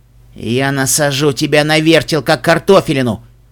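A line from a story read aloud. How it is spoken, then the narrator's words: Growling unicorn. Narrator (Russian): прорычал единорог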